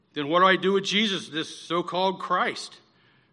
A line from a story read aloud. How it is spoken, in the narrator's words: they all shouted